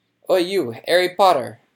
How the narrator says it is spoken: shouted a particularly grim-looking dwarf

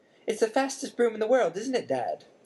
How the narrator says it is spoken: squeaked a young boy, younger than Harry

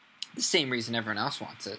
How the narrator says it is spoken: said Hermione

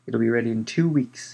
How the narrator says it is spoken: she said happily

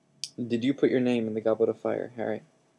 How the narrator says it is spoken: asked calmly

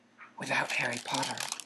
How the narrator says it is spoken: breathed the second voice softly

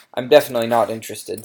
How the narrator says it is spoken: said Harry firmly

